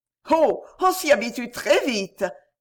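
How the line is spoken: Laughing heartily. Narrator (French): répondit-elle en riant de tout son cœur

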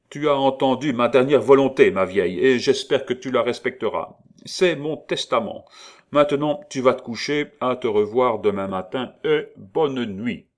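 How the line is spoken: Brusque, imperious. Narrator (French): en ajoutant d'un ton brusque et impérieux

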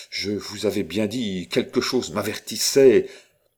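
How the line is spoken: Sudden angry exclamation. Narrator (French): s'écria Roland avec une soudaine colère

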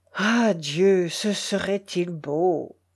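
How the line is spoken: Sad moan. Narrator (French): gémit-il tristement

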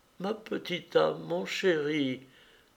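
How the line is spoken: Stammering, tearful like a child. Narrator (French): balbutia Anna, et elle fondit en larmes comme un enfant

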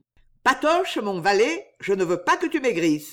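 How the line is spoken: Plain. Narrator (French): dit le patron

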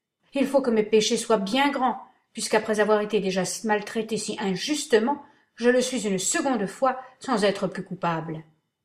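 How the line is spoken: Brother exclaimed. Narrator (French): s'écria mon frère

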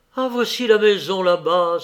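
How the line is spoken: Exclaiming. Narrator (French): s'écria Scrooge

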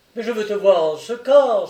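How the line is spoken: Exclaimed. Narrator (French): s'écrie-t-il

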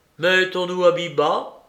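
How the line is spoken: Cold. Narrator (French): dit froidement Philippe à Gilet

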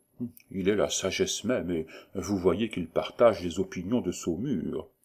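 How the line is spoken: Quiet whisper. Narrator (French): lui dit tout bas

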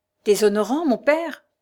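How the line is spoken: Exclaimed, pale with emotion. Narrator (French): s'écria Tristan, dont les lèvres devenaient pâles

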